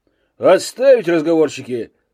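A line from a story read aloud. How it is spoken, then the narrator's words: Barked military-style. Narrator (Russian): совсем по-уставному гаркнул Загеройский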